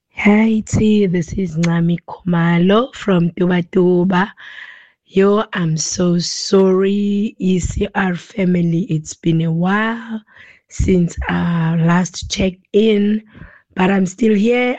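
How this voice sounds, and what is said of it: Sick-sounding voice. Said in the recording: “sorry about my voice... I've got flu”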